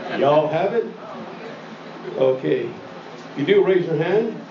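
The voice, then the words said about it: Put-on Texas drawl. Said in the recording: “I'm going to cut to my Texas drawl here.”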